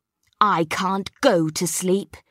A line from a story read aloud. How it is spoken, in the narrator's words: he grumbled